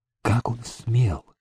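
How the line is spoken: Trembling whisper. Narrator (Russian): Бледная, дрожащая, она прошептала

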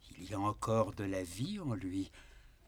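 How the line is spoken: Involuntary murmur. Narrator (French): murmura comme malgré elle

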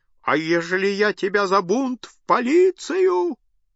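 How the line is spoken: Loud ear-piercing proclamation. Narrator (Russian): громко, голосом резавшим уши, возглашал

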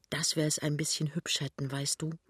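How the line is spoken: Soft. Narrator (German): sagt Pinneberg leise

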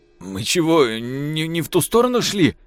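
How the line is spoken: Whining. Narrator (Russian): проскулил прапор

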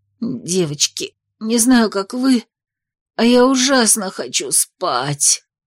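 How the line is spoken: Hoarse wheeze. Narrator (Russian): прохрипела Зики

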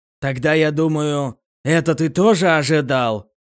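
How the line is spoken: Deliberately loud. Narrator (Russian): Агент нарочито громко заговорил, чтобы Эл мог слышать разговор

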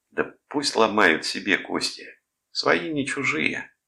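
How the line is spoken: Indifferent tone. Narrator (Russian): сказал равнодушным тоном Томас

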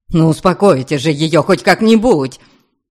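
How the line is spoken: Hysterical near-shout. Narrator (Russian): почти выкрикнул с истерическими интонациями

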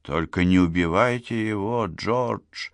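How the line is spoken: Breathless exhale. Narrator (Russian): выдохнул он

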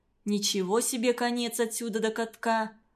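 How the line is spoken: Plain. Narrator (Russian): говорит он

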